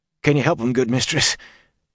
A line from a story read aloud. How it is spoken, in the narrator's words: He asked hoarsely